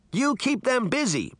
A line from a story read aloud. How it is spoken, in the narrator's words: Sabrina shouted